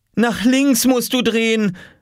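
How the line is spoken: Calling from outside door. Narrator (German): rief sie vor der Tür

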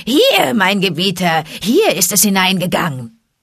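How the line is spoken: Shrill call after someone. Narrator (German): Tabaki rief hinter ihm her mit schriller Stimme

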